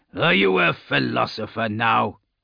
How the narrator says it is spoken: Arke grunted

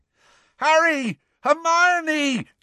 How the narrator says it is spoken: yelled Ron, looking quite beside himself

